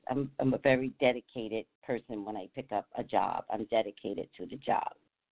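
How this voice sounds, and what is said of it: Slightly rough voice. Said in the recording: “I feel like my voice is a little rough right now.”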